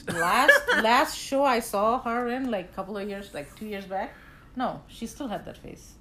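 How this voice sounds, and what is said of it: Foreign non-native accent. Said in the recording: “I'm not from here, so I'm a foreigner, as my husband says. So please, stick to my accent.”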